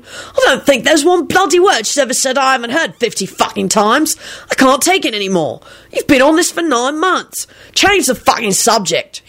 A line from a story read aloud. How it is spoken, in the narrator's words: he snapped rudely